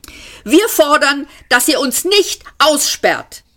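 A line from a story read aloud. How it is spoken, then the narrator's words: Younger one snapping. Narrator (German): schnauzte der Jüngere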